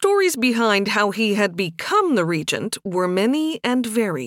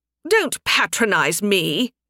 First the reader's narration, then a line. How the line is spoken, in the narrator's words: George snapped